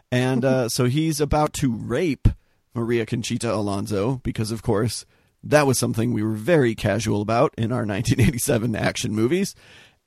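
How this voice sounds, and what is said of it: Hoarse, fading voice. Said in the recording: “I'm losing my voice, as you guys can hear”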